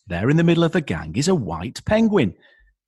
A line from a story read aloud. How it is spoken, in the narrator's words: the biologist shouts